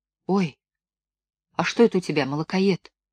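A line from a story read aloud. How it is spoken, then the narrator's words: Horrified whisper. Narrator (Russian): с ужасом прошептала Белка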